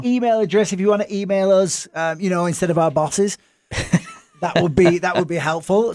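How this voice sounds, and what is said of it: Speaker's own accent. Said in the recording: “my accent”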